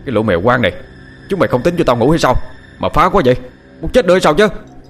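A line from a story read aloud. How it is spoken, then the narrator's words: Shouting. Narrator (Vietnamese): Anh Sơ vừa quát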